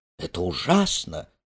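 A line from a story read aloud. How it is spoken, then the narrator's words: Whisper. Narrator (Russian): прошептала она вслед Шеромуру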